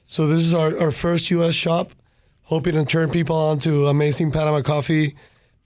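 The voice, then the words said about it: Hoarse, worn-out voice. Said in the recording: “my voice is a little shot today... I think everybody just whispered”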